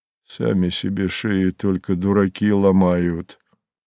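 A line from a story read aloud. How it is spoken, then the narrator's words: Gruff grumble. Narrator (Russian): буркнул Савва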